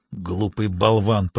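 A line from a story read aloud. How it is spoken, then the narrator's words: Grumbling mutter. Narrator (Russian): проворчал себе под нос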